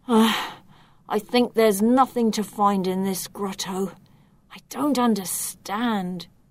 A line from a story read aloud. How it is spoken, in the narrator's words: Vic's the one who sighs, and he whispers